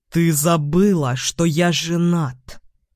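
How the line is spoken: Through gritted teeth. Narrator (Russian): цыжу сквозь зубы

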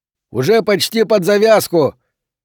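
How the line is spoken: Shouted. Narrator (Russian): человек кому-то внутрь крикнул

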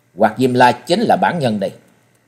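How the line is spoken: Cold. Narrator (Vietnamese): Trần Lâm lạnh lùng nói

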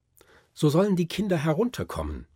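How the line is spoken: Call. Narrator (German): rief Fritz

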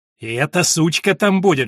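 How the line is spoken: Hissing. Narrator (Russian): шипела мать Уильяма

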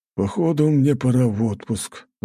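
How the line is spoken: Sigh. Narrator (Russian): вздохнул

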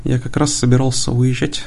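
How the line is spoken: Plain. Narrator (Russian): сказал он

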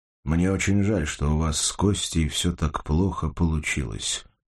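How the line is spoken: Plain. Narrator (Russian): сказал Кожевников

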